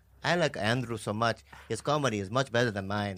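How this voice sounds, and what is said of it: Put-on Spanish accent, sounding Mexican. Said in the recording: “Do Spanish ... That's really good ... That's a little closer to Mexican than Spanish ... But it's good”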